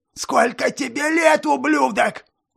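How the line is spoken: Shouting even louder. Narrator (Russian): закричал еще громче

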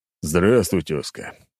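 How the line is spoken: Heavy sigh. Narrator (Russian): тяжело вздохнул

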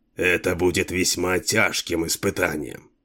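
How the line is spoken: Grumbled. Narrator (Russian): буркнул Джарво

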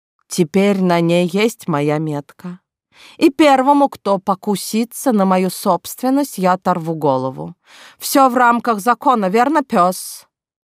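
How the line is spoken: Contented purr. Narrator (Russian): я довольно мурлыкнула

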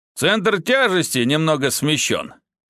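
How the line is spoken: Chuckling. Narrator (Russian): хохотнул

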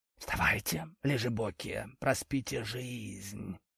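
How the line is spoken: Hissing from the kitchen. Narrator (Russian): прошипел он из кухни

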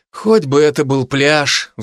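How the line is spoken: Sigh. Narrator (Russian): вздохнул Котов, устало

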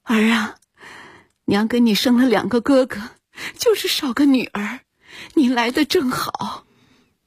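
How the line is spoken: Crying. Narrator (Chinese): 一线红 哭着说

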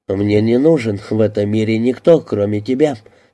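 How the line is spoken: Plain. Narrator (Russian): сказал Клинк

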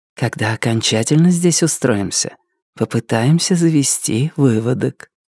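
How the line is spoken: Whispered. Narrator (Russian): она прошептала

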